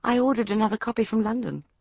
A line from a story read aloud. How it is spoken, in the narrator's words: said calmly